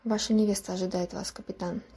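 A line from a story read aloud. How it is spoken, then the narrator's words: Quiet. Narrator (Russian): тихо произнесла она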